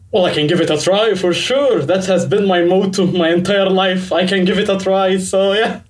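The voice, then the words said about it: Egyptian-accented English, low voice. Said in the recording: “my accent is very Egyptian ... you've got a very nice low voice”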